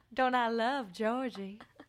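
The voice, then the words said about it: Put-on Louisiana Southern accent. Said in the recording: “Louisiana debutante. ... please do the whole recap in that accent.”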